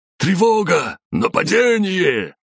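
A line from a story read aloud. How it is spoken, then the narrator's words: Guards yelling. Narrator (Russian): завопили гвардейцы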